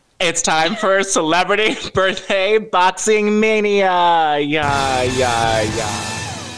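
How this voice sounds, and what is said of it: Booming fight announcer voice. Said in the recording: “That is my UFC Machine Gun Kelly Megan Fox announcer voice.”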